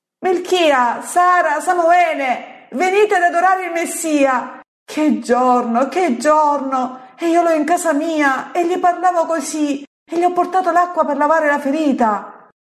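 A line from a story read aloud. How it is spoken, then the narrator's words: Shrieking woman. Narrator (Italian): La donna strillando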